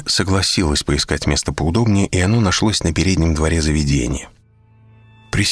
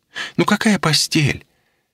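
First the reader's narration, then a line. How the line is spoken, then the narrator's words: Incredulous exclamation. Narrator (Russian): воскликнула она, будто это неправда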